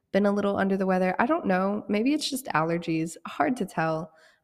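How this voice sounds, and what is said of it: Slightly sick-sounding voice. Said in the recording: “I am a little bit sick. I don't know if you can tell by my voice.”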